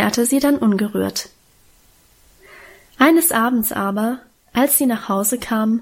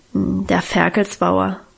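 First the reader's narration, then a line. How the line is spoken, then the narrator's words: Embarrassed mumble, head lowered. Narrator (German): brummte Guste noch verlegener, mit gesenktem Kopf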